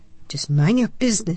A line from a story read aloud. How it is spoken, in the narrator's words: she snapped